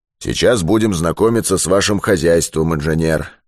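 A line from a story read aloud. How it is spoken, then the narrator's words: Plain, after a pause. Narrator (Russian): сказал он, помолчав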